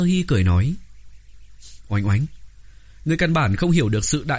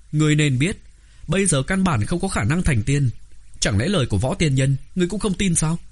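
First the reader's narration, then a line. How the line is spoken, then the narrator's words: Loud through gritted teeth. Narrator (Vietnamese): Oánh Oánh nghiến răng, lớn tiếng nói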